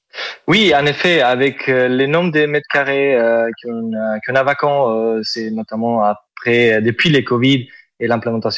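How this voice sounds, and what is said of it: Southern French accent. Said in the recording (French): “Vous avez un superbe accent ... de l'accent du sud ... c'est joli”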